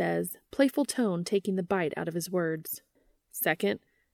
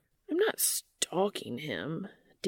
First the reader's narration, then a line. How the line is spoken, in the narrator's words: Dean grumbles pathetically